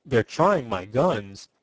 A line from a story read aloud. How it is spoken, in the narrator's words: observed Tom grimly